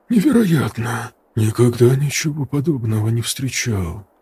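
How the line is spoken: Spellbound mutter. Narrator (Russian): пробормотал он, словно зачарованный открывшимся зрелищем

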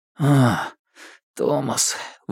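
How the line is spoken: Breathless exhale. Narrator (Russian): выдохнул он

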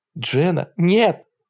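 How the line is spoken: Strained, forced out. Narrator (Russian): выдавила Айви

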